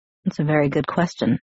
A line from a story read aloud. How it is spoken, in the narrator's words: he muttered, so quietly that I wondered if he was talking to himself